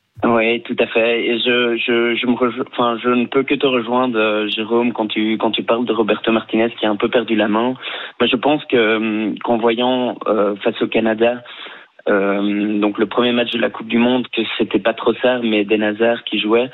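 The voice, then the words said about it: Belgian French accent. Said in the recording (French): “un accent belge ... je viens de Bruxelles”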